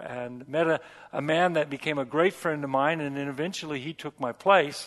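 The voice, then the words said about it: American accent, hard to place. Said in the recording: “we still sound American to you ... there's an accent. You got an accent. You talk funny ... I can't quite place where it's from, but there's an accent”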